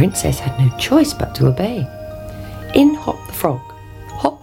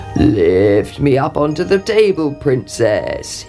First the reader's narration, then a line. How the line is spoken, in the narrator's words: croaked